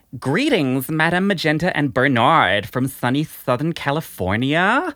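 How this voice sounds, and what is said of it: Valley Girl accent. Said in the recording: “she wants you to do a Valley Girl accent ... Valley Girl voice”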